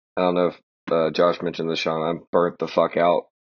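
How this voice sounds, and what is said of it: Deep, raspy, tired voice. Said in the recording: “You probably hear it in my voice from being on set till like 1 a.m. ... you sound like the Marlboro Man ... my voice sounded sexy”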